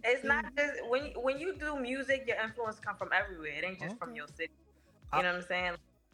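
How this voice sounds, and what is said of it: New York accent. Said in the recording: “Okay, now I hear the New York accent. I hear the New York accent now. I hear it now.”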